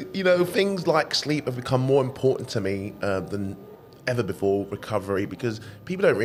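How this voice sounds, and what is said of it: Usual voice. Nothing is said of it.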